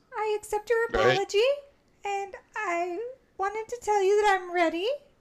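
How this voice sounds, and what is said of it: Imitates a Muppet character's voice. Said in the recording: “I was trying to do his voice. I just couldn't get there yet.”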